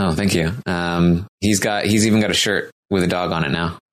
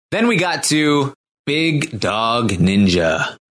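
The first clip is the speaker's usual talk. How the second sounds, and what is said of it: Announcer voice. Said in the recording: “That was a good announcer voice.”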